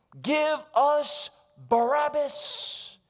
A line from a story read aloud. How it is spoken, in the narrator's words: like the bellowing of wild beasts, the mob cried in response